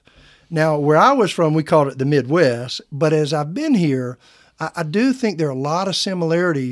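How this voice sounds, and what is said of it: Slight Southern twang accent. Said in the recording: “they can hear a little twang in my accent, so I'm told ... you must be from a Southern state”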